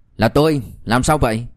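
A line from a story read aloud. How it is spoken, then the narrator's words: Cold. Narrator (Vietnamese): Liêu Kinh Vũ lạnh lùng nói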